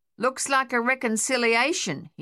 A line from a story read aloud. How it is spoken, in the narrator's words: he shouted back